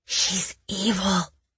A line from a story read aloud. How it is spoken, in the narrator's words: I whispered